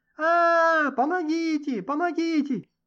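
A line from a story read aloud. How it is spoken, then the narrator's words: Continuous screaming. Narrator (Russian): Роза продолжала вопить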